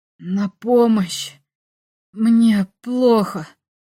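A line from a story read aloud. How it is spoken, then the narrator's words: Hoarse wheeze. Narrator (Russian): я прохрипел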